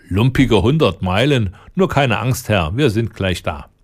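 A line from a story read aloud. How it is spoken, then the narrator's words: Laughing. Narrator (German): lachte der Lange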